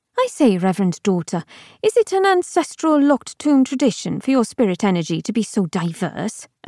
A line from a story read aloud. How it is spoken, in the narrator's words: Abigail asked brightly